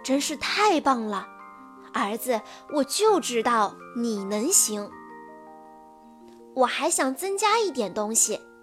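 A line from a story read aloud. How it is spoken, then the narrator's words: Father, amazed. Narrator (Chinese): 爸爸惊叹道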